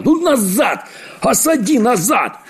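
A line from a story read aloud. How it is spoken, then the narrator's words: Old man shouting, exasperated. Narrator (Russian): Наконец, бедный старик Чиполлоне не выдержал и закричал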